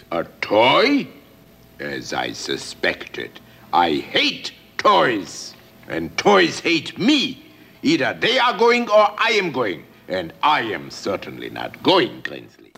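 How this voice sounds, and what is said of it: Burgermeister Meisterburger's villain accent. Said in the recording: “their leader is called Burgermeister Meisterburger. Check the accent.”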